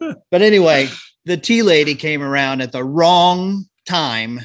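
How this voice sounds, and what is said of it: Usual voice. Nothing is said of it.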